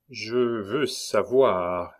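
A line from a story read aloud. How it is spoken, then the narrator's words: Slow speech. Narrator (French): dit lentement Jean-Baptiste Schwartz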